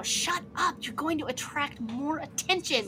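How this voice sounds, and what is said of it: Loud whisper-shout. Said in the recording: “loudly whisper shout”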